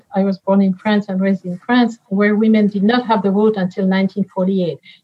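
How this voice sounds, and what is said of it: French accent. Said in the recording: “You hear it from my accent.”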